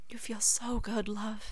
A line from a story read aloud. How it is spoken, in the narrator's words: Remus whispers